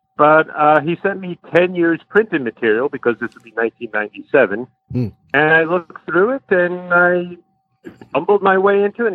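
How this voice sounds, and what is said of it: Long Island New York accent. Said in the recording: “I grew up on Long Island, hence this accent.”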